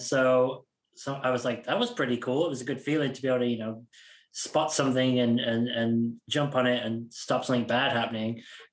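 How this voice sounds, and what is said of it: Accent between British and American. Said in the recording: “my accent is kind of halfway between the two countries at the moment ... you sound like you're from New York ... I'm definitely closer to Boston and New York for sure.”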